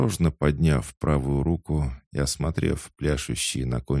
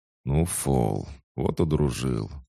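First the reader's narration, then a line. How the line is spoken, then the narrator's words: Mutter. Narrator (Russian): пробормотал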